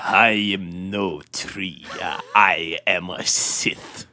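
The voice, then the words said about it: Imitating Darth Sidious's voice. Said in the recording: “now you sound like Sidious”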